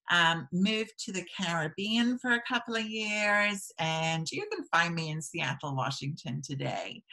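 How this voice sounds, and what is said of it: Mixed English and American accent. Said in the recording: “accent, kind of confusing, you know, between English and American. And American people say I sound English, and English people say I sound American. ... You still sound English, I think.”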